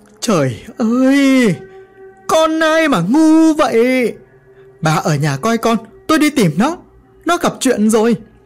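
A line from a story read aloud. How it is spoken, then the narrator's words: Panicked shouting. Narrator (Vietnamese): Nghe xong câu chuyện, bố tôi mất hết cả bình tĩnh mà hét lên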